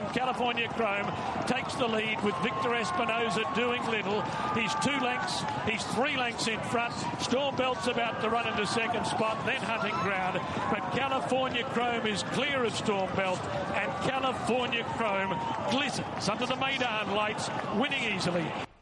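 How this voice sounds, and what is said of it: Poor Terry Spargo race-call impression. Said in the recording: “terrible Terry Spargo impression.”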